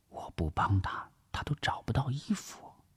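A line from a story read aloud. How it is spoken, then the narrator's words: Whispering. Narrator (Chinese): 王碧奎悄声的耳语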